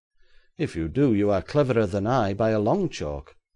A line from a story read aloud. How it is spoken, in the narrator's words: cried Bentham Gibbs